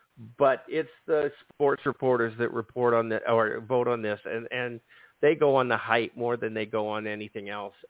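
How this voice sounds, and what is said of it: Strained, failing hoarse voice. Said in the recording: “I'm absolutely losing my voice. My throat is on fire ... I can't talk. And it's sore.”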